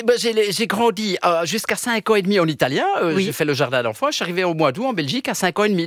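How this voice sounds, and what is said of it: Belgian French accent. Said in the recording (French): “On vous entend avec un accent belge”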